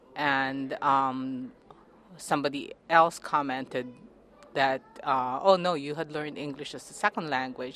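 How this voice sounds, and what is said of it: Filipino-accented English. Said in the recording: “in the Philippines, we always grew up bilingual ... Obviously, I speak it with an accent ... I've always been bilingual, Filipino and English”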